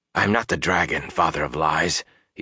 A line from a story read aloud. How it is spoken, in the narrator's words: he said hoarsely